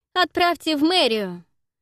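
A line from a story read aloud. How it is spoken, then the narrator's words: Shouted. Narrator (Russian): крикнула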